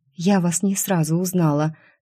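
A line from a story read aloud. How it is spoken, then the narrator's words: Relieved sigh, young woman. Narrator (Russian): с облегчением вздохнула девушка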